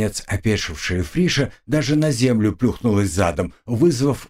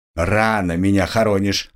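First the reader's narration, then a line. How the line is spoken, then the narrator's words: Barking shout. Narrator (Russian): гаркнул тот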